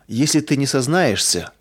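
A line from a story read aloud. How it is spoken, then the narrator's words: Menacing. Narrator (Russian): грозно продолжал собеседник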